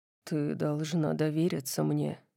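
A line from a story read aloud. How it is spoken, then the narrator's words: Gentle. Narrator (Russian): мягко сказал он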